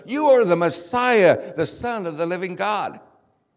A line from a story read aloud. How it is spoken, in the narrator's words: something came over me and I yelled